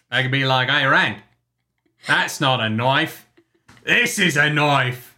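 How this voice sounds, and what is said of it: Put-on Australian accent. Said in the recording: “How's my Australian accent? ... Australian accent ... 9 out of 10”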